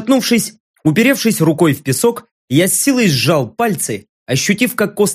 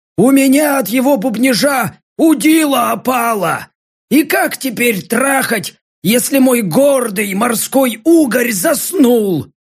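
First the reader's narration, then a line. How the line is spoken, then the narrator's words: Hoarse upset sigh. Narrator (Russian): Огорченно выдохнул хриплый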